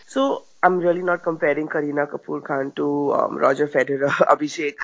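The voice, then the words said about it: Raspy, sore-throated voice. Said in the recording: “recovering from a rather sore throat ... my rather raspy voice today”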